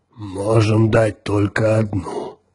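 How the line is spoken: Chief's grumble. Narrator (Russian): проворчал вождь

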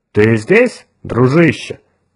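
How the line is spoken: Confident question. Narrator (Russian): уверенным тоном поинтересовался чародей с Марса

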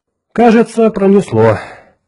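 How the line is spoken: Relieved sigh. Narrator (Russian): облегченно вздохнул Кертис

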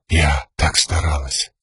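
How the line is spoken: Numb whisper. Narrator (Russian): оцепенев, прошептала ясно

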